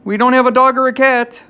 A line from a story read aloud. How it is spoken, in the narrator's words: he bellowed